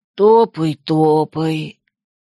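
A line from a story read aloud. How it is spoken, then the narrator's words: Sleepy yawn. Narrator (Russian): сонно зевнул Лин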